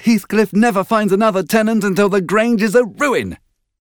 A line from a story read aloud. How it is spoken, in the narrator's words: she answered sharply